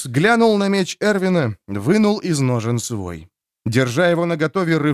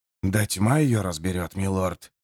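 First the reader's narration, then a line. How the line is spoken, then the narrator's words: Gruff grumble. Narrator (Russian): буркнул Джимис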